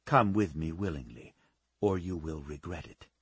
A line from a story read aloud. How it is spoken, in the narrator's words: he said